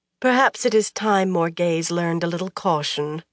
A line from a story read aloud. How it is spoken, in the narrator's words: Anaya sighed